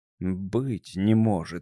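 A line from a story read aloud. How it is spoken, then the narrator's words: Amazed mutter. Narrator (Russian): изумленно пробормотал он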